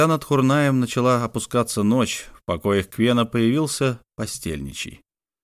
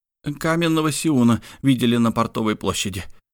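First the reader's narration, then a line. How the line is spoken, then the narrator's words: Breathless. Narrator (Russian): выдохнул постельничий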